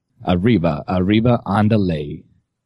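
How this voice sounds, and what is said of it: Morgan Freeman doing Mexican accent. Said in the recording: “What would Morgan Freeman sound like doing a Mexican accent?”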